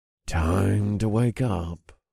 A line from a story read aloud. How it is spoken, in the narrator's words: I purred